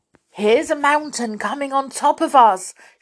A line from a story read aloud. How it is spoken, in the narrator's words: shouted Joe